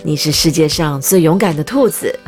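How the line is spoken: Laughing. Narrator (Chinese): 巴斯特笑着说

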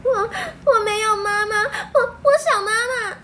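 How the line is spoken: Crying young child. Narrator (Chinese): 年纪较小的罗蒂哭着说

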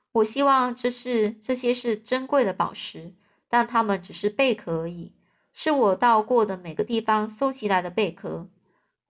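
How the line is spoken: Sighing. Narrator (Chinese): 万次郎叹了口气说

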